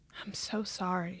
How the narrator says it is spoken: she whispered

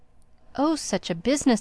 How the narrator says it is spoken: he cried

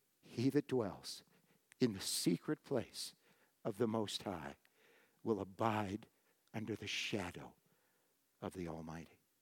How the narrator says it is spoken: the Spirit of God whispered to my heart

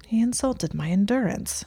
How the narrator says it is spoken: he said defensively under his breath

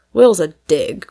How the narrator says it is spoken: growled Tom

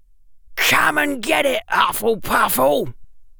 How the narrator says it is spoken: shouted Mr

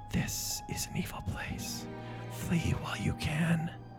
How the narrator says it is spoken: whispered

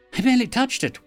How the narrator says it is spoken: Wyam whined

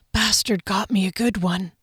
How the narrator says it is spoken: Harley whispered

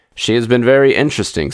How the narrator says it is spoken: said Frampton

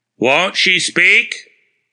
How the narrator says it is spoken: the wagoner asked in his slow, flat voice

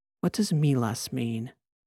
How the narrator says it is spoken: She whispered in his ear

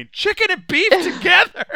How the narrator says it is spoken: screaming

